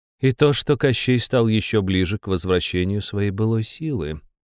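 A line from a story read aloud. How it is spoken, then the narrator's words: Even tone. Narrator (Russian): ровным тоном проговорила Беляна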